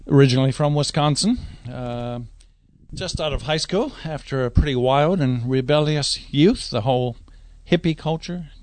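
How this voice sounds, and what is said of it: American accent. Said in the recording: “a bit of an American accent ... that's an American accent you detect”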